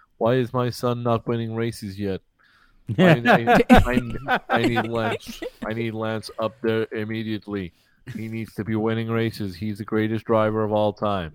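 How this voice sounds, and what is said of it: Imitates another person's voice, Canadian accent. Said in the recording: “I apologise to all Canadian listeners for that impression.”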